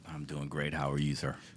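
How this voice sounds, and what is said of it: Deep radio voice. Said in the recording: “You have a nice, deep voice there, man. ... that's a radio voice.”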